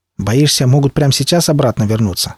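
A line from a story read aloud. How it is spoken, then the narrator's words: Plain. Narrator (Russian): спросил я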